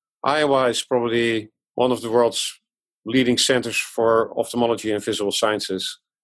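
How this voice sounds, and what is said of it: Dutch accent. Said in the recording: “As you can hear from my accent, I was born abroad in the Netherlands.”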